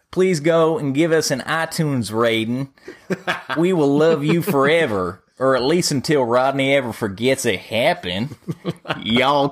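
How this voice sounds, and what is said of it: Put-on Southern drawl accent. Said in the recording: “in a specific character voice of the week ... in your best Southern drawl accent ... a Southern accent”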